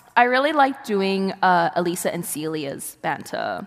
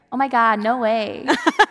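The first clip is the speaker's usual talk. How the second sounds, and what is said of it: Put-on Valley Girl accent. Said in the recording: “I can only do a Valley Girl accent”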